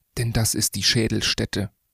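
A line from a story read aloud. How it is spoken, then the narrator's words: Whispered. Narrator (German): flüsterte Bardeleben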